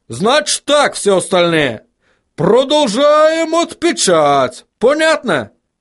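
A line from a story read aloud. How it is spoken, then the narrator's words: Shout. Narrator (Russian): крикнул он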